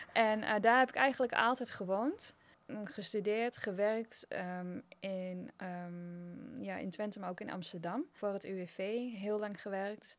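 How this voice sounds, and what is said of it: Slight Twente regional Dutch accent. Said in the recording (Dutch): “geboren en getogen in Twente ... Goed te horen waarschijnlijk ook wel, een beetje accent.”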